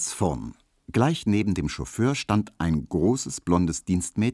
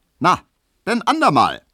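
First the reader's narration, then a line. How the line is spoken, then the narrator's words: Cheerful call back. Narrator (German): rief der fröhliche Leichenkutscher zurück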